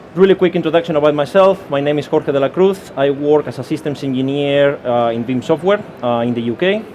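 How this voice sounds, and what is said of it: Spanish accent. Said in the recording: “I'm Spanish, as you can hear by my accent”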